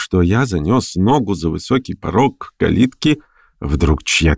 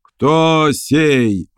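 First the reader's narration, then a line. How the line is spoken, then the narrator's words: Roared. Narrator (Russian): взревел чей-то голос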